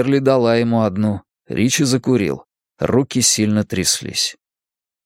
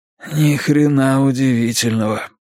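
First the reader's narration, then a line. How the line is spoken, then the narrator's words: Hoarse wheeze. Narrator (Russian): просипел Ричи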